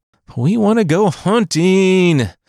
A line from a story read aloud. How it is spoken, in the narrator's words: brother whined